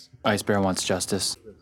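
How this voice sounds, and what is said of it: Flat monotone character voice. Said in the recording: “in her just monotone voice... her ice bear monotone”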